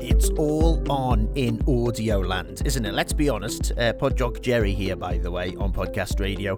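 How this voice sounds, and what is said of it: Liverpudlian accent. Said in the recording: “my Liverpudlian accent”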